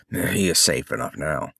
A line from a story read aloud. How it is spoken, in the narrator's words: The spearman grunted